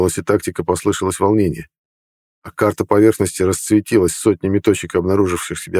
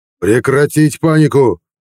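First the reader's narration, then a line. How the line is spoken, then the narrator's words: Commanding roar. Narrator (Russian): взревел глава флота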